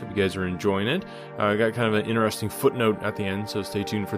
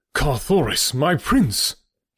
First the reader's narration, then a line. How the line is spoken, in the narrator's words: he cried